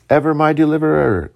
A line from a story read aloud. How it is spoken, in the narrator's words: cried the venerable Mar